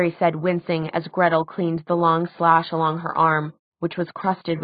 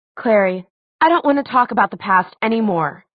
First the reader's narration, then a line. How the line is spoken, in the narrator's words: she said fiercely